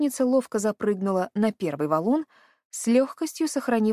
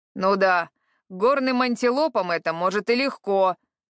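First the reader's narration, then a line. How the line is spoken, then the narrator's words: Grumbling. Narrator (Russian): ворчание Харада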